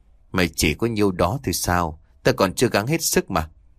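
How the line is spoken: Savage laugh, muttering. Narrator (Vietnamese): hắn cười một cách đầy man dợ rồi lẩm bẩm

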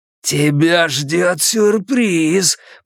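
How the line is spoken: Growling. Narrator (Russian): прорычал он

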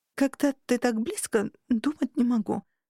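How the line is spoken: Hoarse. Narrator (Russian): уточнила я хрипло

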